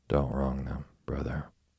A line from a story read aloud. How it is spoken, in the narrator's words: answered Deacon Tilton, a simple and kindly old man